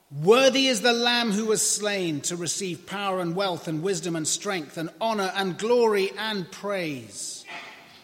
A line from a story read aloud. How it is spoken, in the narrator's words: In a loud voice, they were saying